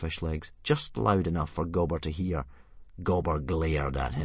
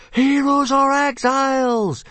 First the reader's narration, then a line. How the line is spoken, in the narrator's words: yelled the watching hooligan and meathead tribes